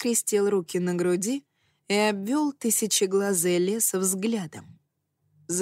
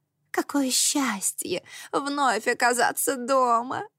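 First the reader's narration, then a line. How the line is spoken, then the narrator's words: Witch's sigh. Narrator (Russian): вздохнула красная ведьма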